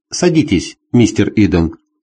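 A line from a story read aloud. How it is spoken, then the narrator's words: Plain. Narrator (Russian): сказала девушка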